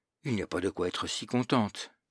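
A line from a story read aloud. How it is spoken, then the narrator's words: Shocked murmur to herself. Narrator (French): Criquet, un peu choqué, murmura, comme se parlant à elle-même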